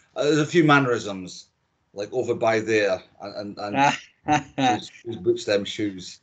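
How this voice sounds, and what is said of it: Scottish accent. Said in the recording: “my Scottish accent, which I haven't lost since I left Dundee”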